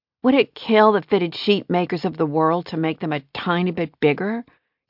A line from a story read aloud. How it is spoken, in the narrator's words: Kira groaned in frustration